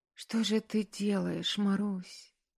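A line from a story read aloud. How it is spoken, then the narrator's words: Anguished whisper. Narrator (Russian): прошептала она с надрывом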